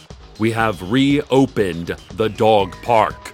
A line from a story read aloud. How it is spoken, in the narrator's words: the city council shouted